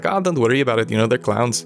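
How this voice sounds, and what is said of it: Bad put-on Irish accent. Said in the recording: “sorry for my bad Irish accent”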